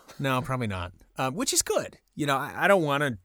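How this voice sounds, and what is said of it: Californian accent. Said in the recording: “I hear like a Californian accent when I talk to you”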